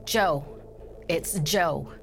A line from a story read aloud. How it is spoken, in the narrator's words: stammered